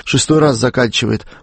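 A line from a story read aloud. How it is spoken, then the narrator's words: Statesman muttering. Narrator (Russian): пробормотал государственный деятель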